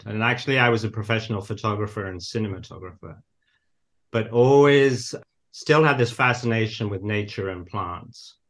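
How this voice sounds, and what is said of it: Slight northern English accent. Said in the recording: “I grew up in England, as you might still hear a bit of an accent ... I grew up in the north of England”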